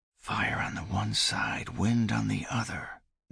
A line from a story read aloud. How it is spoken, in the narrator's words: Nikolai whispered